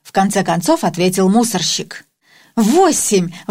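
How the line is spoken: Exclamation. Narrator (Russian): воскликнул

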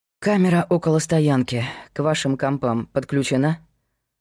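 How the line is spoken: Sighing. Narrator (Russian): вздохнул Павел

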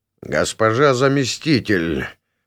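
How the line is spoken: Through gritted teeth, via mirror. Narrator (Russian): процедил с поверхности волшебного зеркала советник Адамас

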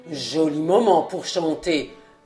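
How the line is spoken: Murmured. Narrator (French): murmura-t-il

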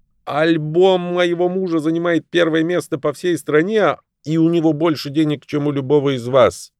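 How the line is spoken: Shout. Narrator (Russian): Лав закричала

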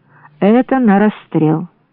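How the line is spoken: Grim. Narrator (Russian): Брауде мрачно сказала

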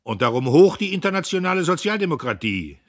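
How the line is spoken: Male call. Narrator (German): rief er

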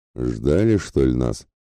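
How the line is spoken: Grumbling. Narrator (Russian): проворчал Ратибор в толпу стоящих перед ним данов

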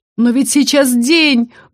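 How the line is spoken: Loud shriek, young woman. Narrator (Russian): громко взвизгнула одна из девиц

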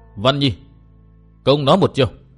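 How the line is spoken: After hearty laughter. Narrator (Vietnamese): Bạch Phát Tiên Nương ha hả cười lớn một lúc rồi nói

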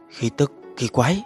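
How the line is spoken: Puzzled muttering. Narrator (Vietnamese): mắt lộ ra nghi hoặc, lẩm bẩm nói

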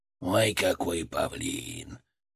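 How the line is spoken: Snort inside the head. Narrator (Russian): Фырк хмыкнул в моей голове

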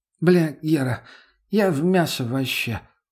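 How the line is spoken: Sluggish mumble. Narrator (Russian): вяло промямлила Лена

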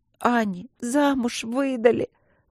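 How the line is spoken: Loud sobbing. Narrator (Russian): громко зарыдала Каролинка

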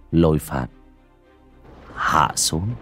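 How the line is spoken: Casual soft speech. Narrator (Vietnamese): bác cổ cũng chỉ hời hợt, miệng khẽ nói

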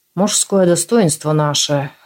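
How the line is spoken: Mild, unprovocative snort. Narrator (Russian): хмыкнул экс-коллектор, но не слишком задиристо

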